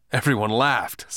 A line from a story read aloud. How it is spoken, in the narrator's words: said Keith